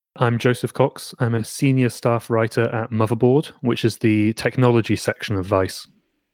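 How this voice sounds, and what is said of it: English accent. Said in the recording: “that guy's English accent is much better”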